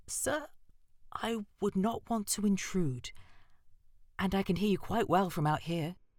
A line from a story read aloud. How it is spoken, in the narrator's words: she said timidly